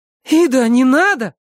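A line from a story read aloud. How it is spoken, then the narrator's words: Exclaiming. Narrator (Russian): воскликнула Элисон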